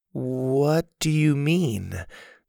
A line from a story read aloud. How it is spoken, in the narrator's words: Susie asked slowly